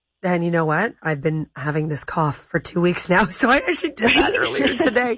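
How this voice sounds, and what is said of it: Slightly hoarse voice. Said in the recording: “You can hear I'm a little bit hoarse.”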